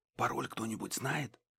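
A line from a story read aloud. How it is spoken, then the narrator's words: Whispered question. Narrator (Russian): шепотом спросил Гидеон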